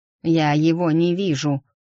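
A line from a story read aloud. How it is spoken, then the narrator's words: Barking into radio, cursing. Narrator (Russian): рявкнула она в рацию, чертыхаясь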